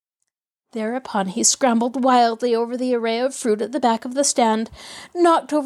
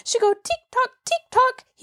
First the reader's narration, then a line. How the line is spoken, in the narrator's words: he wailed